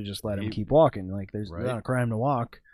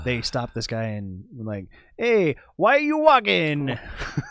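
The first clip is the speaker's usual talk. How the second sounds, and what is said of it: Put-on Italian accent. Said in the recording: “That's perfect. That's the perfect Italian accent.”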